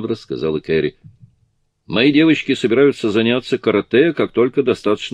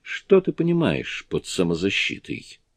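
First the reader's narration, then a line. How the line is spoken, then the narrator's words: Timid question. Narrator (Russian): робко спросила Анни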